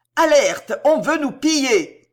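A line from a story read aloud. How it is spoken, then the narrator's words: Woman shouting alarm. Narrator (French): cria une ribaude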